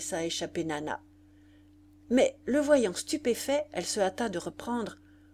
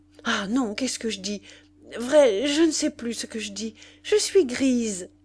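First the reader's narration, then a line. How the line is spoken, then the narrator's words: Tipsy joyful exclamation. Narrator (French): Et grise, en effet, grise de joie, grise de soleil, elle s'exclama elle-même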